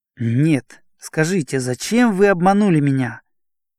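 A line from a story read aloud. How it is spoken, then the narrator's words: Angry exclamation. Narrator (Russian): злобно восклицал Ромашов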